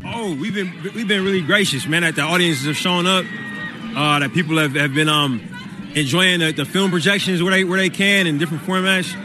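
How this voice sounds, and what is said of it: Oakland California accent. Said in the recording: “that Oakland accent, that Cali accent. ... that Oakland accent.”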